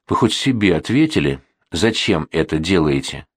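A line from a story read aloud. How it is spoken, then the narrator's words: Resigned sigh. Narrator (Russian): обреченно вздохнул Турутин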